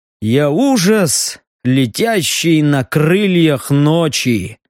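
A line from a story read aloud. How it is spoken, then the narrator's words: Grim joking. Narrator (Russian): мрачно пошутил он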